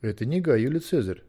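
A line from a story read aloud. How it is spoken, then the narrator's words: Quick. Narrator (Russian): быстро сказал Арбилий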